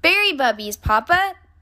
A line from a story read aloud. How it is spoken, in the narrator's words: said brother